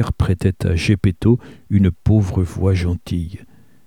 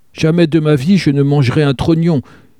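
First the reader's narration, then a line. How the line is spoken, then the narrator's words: Writhing puppet's shout. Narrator (French): cria le pantin en se tordant comme une vipère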